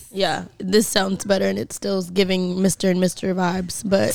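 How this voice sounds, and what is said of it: Raspy, nearly lost voice. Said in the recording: “my voice is almost gone ... It sounds better than it was ... raspy voice”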